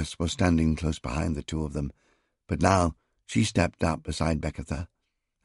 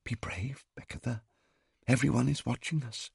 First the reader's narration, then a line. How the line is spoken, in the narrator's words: Tehuti's lips moved as she whispered to her